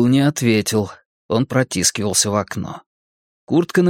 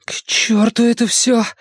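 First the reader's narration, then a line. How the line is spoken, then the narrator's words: Frightened mutter. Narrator (Russian): испуганно пробормотал Ричи себе под нос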